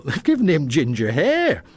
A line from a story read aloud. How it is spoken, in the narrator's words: he chuckled